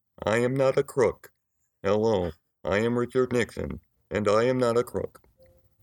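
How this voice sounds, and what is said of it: Richard Nixon in Stephen Hawking voice. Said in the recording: “Here's my impression of Richard Nixon done by Stephen Hawking.”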